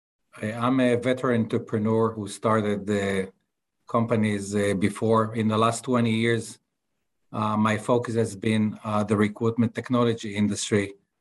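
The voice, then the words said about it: Israeli accent. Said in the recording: “as you can see from my accent, I'm not from Texas, I'm from Tel Aviv.”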